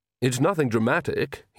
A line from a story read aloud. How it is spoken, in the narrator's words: he said quickly